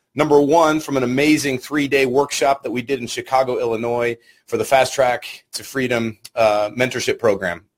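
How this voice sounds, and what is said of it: Strained, partly lost voice. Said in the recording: “forgive my voice today. My voice is a little bit gone.”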